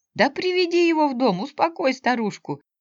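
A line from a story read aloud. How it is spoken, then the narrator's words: Laughing. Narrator (Russian): засмеялся он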